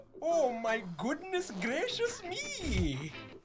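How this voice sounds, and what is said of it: Poor put-on Indian accent. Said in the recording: “your Indian accent sucks”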